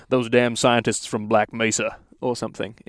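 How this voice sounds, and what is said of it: Impression of J.K. Simmons as Cave Johnson. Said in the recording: “in my best dude from Whiplash impression. ... J.K. Simmons. He voiced Cave Johnson.”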